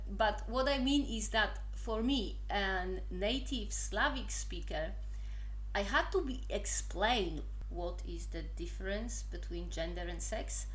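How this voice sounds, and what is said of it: Polish accent in English. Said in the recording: “I am not native English speaker, as you can obviously say from my mighty Polish accent, which apparently is quite cute”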